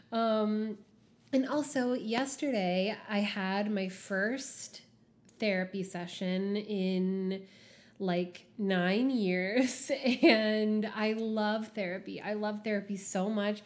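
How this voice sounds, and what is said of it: Stuffy, raw, husky voice. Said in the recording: “my voice is like not doing well today ... I'm just like a little stuffy and like my voice is a little raw ... I'm just a little bit under the weather. So sorry about how I sound. I'm a little husky today.”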